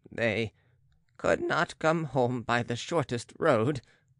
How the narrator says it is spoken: faltered the Baron, trembling with spite

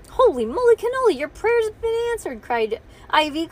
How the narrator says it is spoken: cried Bean

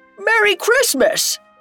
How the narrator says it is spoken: a shout of

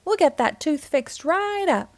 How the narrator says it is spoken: he said cheerfully

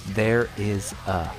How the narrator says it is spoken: he very quietly whispers

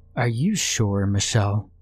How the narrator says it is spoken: Ahmad asked

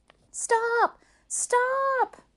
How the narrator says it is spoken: cried Maymay

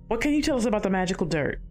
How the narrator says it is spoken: Valerie blurted

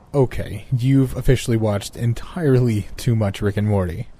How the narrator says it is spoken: I said, laughing out loud

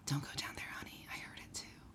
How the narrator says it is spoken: a whisper from the closet saying

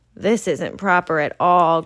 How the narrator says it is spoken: groaned Mara

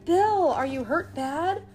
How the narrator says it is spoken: Bill groaned

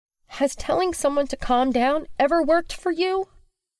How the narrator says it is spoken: Willow blurts out through clenched teeth

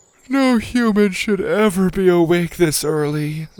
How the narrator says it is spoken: Zada yawned

